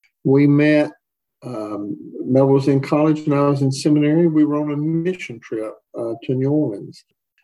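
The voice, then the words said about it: Southern US accent, Tennessee. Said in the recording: “As you can tell from our accents, we grew up in Tennessee.”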